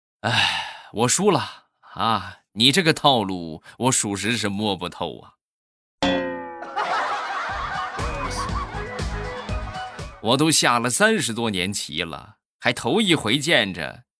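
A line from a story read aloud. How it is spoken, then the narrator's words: Slow, sighing. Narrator (Chinese): 这个大爷……悠悠的叹了一口气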